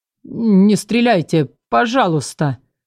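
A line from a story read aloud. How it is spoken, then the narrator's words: Trembling voice. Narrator (Russian): произнес дрожащим голосом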